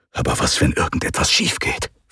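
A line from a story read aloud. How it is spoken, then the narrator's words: Whisper. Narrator (German): flüsterte Trankadios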